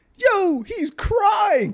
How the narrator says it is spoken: my boy screamed

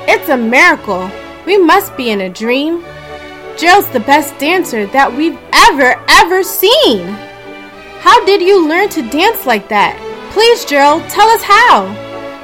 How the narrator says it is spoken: They shouted

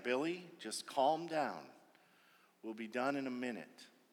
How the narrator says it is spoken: Dad was quietly saying

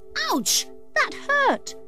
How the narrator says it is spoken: cried Landy as something hit him on the head

